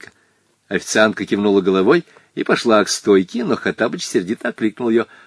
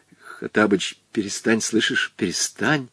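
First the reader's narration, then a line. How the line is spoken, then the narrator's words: Whisper. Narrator (Russian): зашептал был Волька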